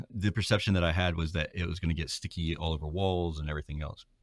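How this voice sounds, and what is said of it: South Georgia Southern accent. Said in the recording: “I'm from South Georgia, so I don't know that my accent.”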